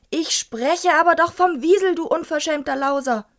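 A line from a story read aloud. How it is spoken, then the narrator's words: Old man shouting. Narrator (German): schrie sein Großonkel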